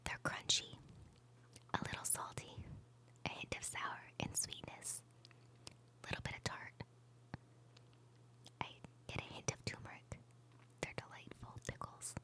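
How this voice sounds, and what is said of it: Soft sexy whisper. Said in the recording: “your little sexy whispering voice ... your sexy little whisper voice”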